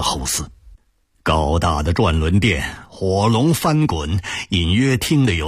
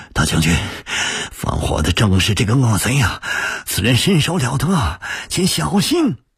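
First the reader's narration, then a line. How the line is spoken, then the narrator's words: Breathless. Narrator (Chinese): 彭越气喘吁吁地说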